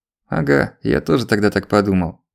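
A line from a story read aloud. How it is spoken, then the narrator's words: Snorting. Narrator (Russian): хмыкнул Черкасов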